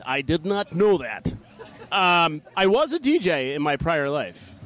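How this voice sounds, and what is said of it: Imitates another person's voice. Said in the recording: “let me do it in my Johnny Carson voice.”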